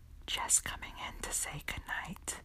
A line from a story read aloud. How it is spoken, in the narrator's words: whispered in my ear